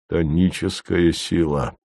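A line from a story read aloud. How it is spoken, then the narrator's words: Sad. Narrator (Russian): грустно сказал Вий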